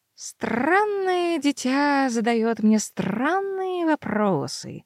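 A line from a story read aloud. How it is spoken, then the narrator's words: Drawling. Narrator (Russian): протянул Лир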